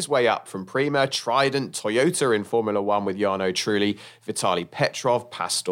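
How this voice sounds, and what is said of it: Usual voice. Nothing is said of it.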